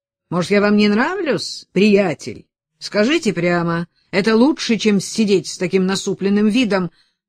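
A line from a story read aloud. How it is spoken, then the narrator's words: Exasperated shout. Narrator (Russian): Не выдержав, Жерарди крикнул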